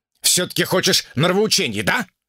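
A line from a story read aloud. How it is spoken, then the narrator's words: Snapping retort. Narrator (Russian): огрызнулся Шао Цзин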